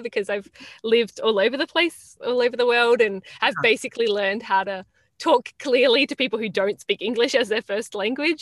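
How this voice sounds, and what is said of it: Mixed Australian accent, sounds Italian. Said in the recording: “I was wondering about that accent. It sounded Italian to me. ... it doesn't really sound totally Australian anymore ... that's definitely changed my accent over the years.”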